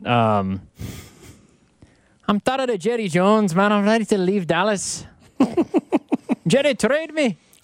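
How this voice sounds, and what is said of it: Dak Prescott in Scottish accent. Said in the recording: “Dak Prescott Scottish ... if he had a Scottish heritage”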